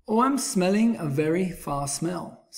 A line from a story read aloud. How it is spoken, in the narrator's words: said the bear